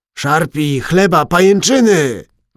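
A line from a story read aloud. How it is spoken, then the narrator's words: Yelled. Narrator (Polish): wrzasnął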